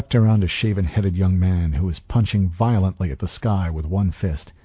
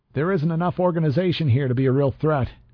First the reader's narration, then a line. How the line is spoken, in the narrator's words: I said, raising my voice to compete with the crowd